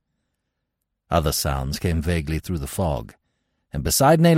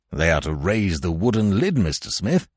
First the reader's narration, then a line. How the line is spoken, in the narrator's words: cried Weymouth eagerly